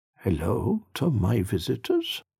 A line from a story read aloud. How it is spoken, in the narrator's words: said warmly